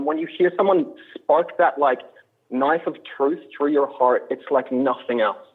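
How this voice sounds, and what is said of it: Australian accent. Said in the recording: “your Australian accent ... I think Americans in general, I think, are very enchanted by the Australian accent”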